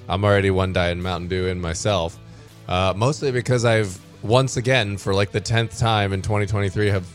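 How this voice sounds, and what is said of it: Hoarse, failing voice. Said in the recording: “losing my voice”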